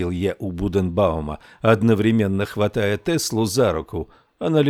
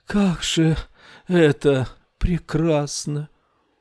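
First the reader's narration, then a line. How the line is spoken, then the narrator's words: Sighing whisper. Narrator (Russian): Рар-Уту вздохнула и прошептала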